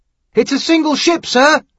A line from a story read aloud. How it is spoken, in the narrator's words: Haskin shouted down finally